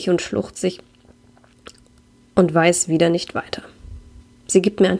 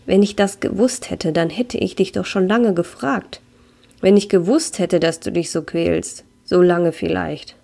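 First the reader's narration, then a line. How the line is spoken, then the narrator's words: Sad voice. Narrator (German): sagt mit trauriger Stimme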